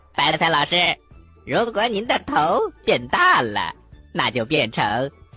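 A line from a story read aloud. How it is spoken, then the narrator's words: Loud, playful. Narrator (Chinese): 土豆丁非常的调皮，他大声的说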